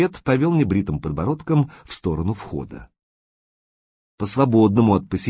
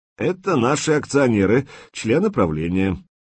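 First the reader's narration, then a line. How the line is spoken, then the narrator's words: Forced cheerful announcement. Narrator (Russian): искусственно бодро объявил Скворцов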